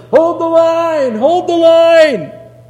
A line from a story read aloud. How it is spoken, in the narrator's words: he's running towards the battle, and he's yelling